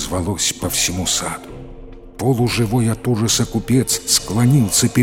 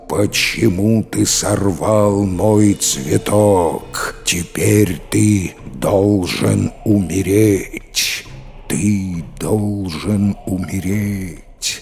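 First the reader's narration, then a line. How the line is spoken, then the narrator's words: Monster roaring, human voice. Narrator (Russian): чудище заревело человеческим голосом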